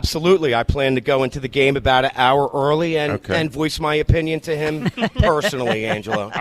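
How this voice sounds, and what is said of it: Usual voice. Nothing is said of it.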